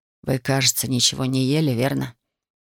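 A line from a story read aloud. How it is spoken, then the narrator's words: Gentle question. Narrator (Russian): мягко спросил доктор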